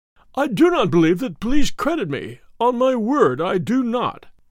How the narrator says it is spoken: said in a wailing voice

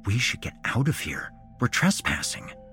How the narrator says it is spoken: Neville whispered back

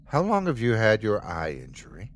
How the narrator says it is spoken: he asked me

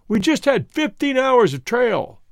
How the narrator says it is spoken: he shouted above the wind, tentatively

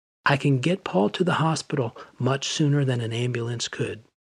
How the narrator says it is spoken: The studio manager explained calmly

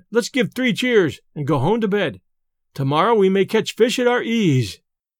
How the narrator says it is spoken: cried Ben

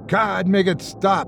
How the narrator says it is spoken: I shouted out loud, disgusted by my thoughts

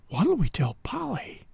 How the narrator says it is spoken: His voice was hardly a whisper

